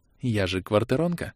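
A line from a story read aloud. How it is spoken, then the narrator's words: Whispered. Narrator (Russian): шепнула она мужу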